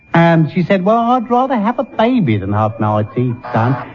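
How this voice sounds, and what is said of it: Put-on Cockney accent. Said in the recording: “He was giving a character performance. ... It's supposed to be a Cockney accent.”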